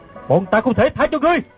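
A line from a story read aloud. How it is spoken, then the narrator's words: Loud shout. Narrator (Vietnamese): Gã bèn lớn tiếng quát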